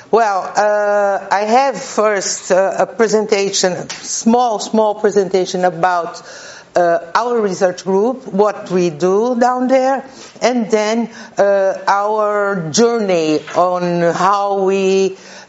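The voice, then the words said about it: Brazilian-accented English. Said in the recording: “my poor English and Brazilian accent”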